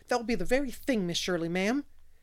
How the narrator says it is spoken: exclaimed Charlotta the Fourth in rapture

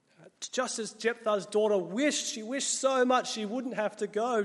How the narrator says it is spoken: Jesus cried out

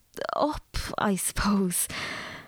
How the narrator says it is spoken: answered Emmerine desperately

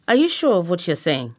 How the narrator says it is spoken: I asked

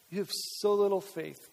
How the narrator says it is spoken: Jesus said

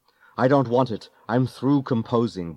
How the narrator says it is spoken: barked the composer

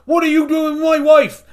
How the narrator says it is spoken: suddenly shout

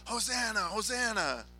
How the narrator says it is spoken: shout

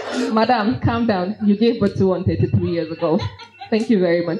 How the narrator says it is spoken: laughed and I said

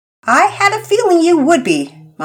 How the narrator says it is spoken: Mama Peters laughed

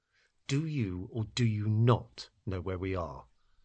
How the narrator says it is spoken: asked again through clenched teeth

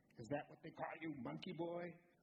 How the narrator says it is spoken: snarling, his voice inside me, always ready to mock

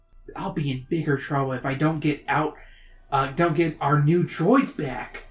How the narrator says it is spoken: Luke mutters

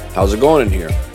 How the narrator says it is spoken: said calmly

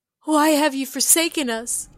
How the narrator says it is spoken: Kelsa cried out

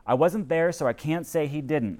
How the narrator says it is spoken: the misfit said

